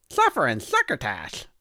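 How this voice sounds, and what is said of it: Imitates Sylvester the Cat cartoon voice. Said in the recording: “doing a Sylvester impression. That's pretty good”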